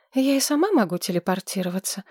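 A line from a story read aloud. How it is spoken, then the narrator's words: Sighing. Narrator (Russian): вздохнула Маргарет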